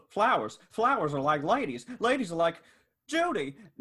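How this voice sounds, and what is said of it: James Stewart impression. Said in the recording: “I love James Stewart's voice. ... good impression.”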